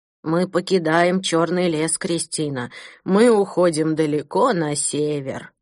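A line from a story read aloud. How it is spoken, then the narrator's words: Old man's creaky voice. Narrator (Russian): проскрипел старик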